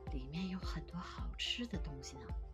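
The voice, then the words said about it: Quiet, hushed voice. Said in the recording (Chinese): “小声地告诉同伴们”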